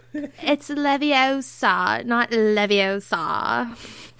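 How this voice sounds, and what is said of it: Valley girl accent. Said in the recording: “did you sound like a valley girl there? ... Hermione by way of Los Angeles”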